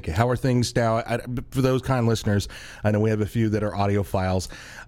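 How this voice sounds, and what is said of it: Voice sounds different from illness. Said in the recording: “My voice is a little bit different today. I am going through the regular routine of whatever happens in winter and getting sick.”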